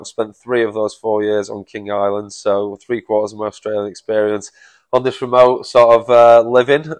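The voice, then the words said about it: Manchester English accent. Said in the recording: “people listening to your accent, not close to home ... I'm from Manchester originally.”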